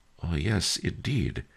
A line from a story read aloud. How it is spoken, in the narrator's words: sighed